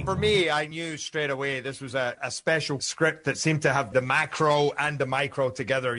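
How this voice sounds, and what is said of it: Mild Scottish accent. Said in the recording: “Doesn't he talk funny? ... A little less Scottish accent. ... A little bit, yes.”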